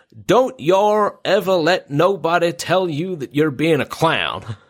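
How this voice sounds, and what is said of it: Put-on American Southern accent. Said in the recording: “I'm going to read this as it came across in my head, with like a southern accent”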